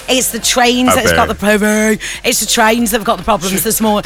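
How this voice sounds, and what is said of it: Put-on Brummie accent. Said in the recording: “in a Brummie accent”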